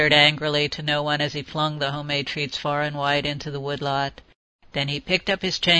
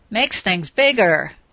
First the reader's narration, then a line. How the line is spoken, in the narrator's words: he signed excitedly